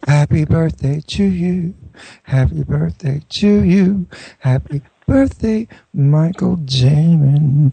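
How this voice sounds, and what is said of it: Sung impression of actress's voice. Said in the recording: “my Jane Russell impersonation”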